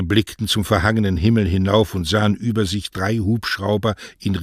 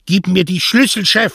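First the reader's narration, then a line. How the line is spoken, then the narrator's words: Shout. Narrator (German): schrie Mario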